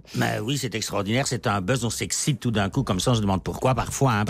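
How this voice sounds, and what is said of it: Slight Belgian French accent. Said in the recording (French): “vous avez un petit accent du pays du chocolat, la Belgique”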